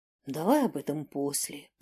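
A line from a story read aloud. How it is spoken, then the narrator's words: Whispered. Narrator (Russian): прошептал Динар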